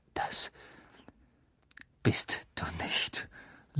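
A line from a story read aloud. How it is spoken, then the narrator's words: Quiet, hateful voice. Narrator (German): sagte er leise und mit hasserfüllter Stimme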